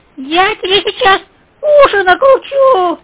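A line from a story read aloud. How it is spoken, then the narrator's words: Shrill squeal. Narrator (Russian): взвизгнул Хрюша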